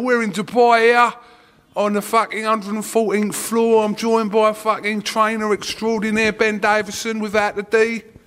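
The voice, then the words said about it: Essex English accent. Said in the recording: “my normal Essex accent from Billericay. I mean, Wickford.”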